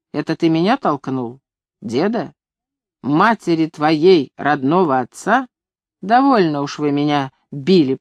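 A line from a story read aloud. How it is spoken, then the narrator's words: Guilty mutter. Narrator (Russian): пробормотал я, поняв, что сделал отвратительно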